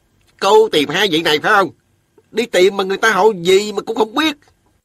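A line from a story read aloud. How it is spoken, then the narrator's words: Grumbling. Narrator (Vietnamese): Miệng hắn cứ cằn nhằn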